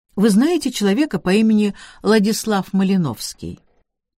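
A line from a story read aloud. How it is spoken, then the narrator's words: Level casual question. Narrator (Russian): Вопрос был задан ровным, небрежным тоном, без особого нажима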